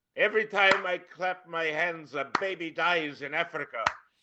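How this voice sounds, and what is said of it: Vague, unplaceable put-on accent. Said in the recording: “that was my anomalous accent. It fits many uh, many, many different uh, minorities, but none of them on the spot.”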